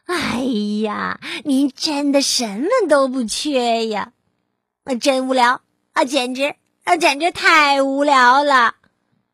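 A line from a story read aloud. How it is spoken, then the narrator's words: Lamenting. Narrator (Chinese): 青蛙哀叹道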